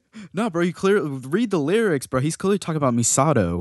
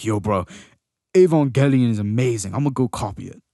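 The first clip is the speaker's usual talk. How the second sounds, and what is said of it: Put-on accent. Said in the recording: “Nice accent.”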